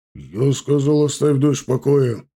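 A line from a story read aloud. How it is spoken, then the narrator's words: Angry bark. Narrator (Russian): рявкнул Загид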